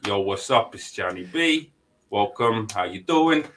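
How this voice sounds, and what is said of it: Imitated New York Sopranos-style accent. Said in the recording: “he sounds like he's from The Sopranos ... the New York accent”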